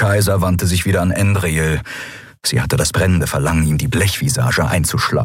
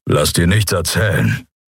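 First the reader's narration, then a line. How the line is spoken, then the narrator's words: Gloomy rumble. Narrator (German): Kerus düsteres Brummen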